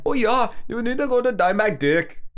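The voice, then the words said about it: Put-on Indian accent, a little off. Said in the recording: “That's my Indian accent. ... we may not land on every accent. Our accente may be a little off.”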